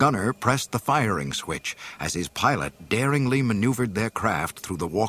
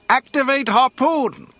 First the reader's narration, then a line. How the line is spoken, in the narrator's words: Wedge shouted to his gunner